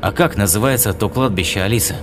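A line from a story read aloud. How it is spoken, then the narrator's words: Calm question. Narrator (Russian): спокойно спросил демон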